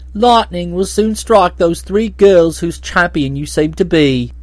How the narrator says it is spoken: he said tauntingly

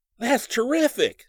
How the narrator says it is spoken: he exclaimed

